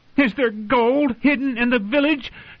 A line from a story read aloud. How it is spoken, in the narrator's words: she shouted